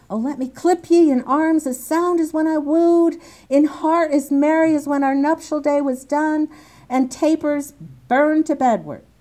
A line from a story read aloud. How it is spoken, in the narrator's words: he exclaims this